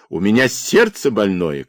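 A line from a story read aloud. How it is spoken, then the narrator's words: Shouted. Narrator (Russian): крикнул Сичкарь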